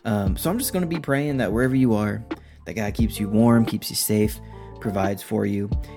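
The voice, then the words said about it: Raspy voice. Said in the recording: “I sound a little bit raspy, I'm coming down with something ... the raspiness in my voice”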